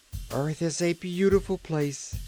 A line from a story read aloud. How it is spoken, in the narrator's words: cried Trot